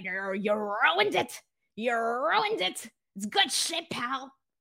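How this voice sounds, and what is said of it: Poor Vince McMahon impression. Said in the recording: “unless he can really do the voice ... That's my best Vince McMahon impression, and it's ass.”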